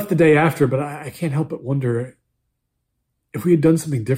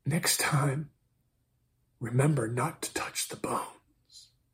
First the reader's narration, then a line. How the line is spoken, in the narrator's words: She whispered